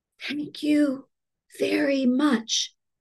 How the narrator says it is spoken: Polly to whisper in her ear

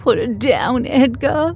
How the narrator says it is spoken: pleaded, my voice quickening with both fear and anger

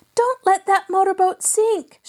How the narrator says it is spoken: she cried

